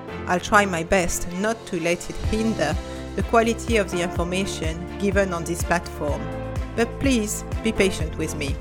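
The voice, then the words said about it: Strong French accent. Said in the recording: “accent come from? Well, I'm French. ... I still speak English with a strong accent.”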